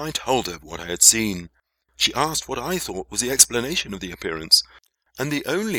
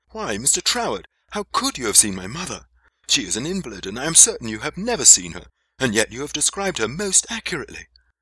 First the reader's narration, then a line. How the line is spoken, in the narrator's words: she exclaimed with astonishment